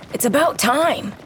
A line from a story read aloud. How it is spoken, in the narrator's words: yells